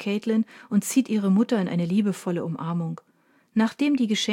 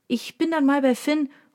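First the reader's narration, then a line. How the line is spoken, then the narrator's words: Called into room. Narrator (German): ruft sie in den Raum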